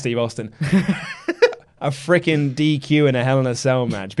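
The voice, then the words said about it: Sean Waltman impression. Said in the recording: “I'm going to do a Sean Waltman impression.”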